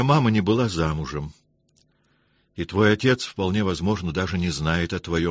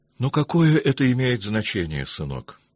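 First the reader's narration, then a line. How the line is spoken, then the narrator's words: Gentle voice. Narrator (Russian): ласково сказал Павел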